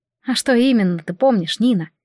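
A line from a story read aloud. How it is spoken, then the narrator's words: Gentle question. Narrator (Russian): мягко спросила Арианна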